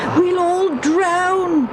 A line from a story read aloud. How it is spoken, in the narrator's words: they yelled